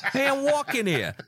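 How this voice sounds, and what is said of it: Put-on New York accent. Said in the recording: “your New York accent ... that accent”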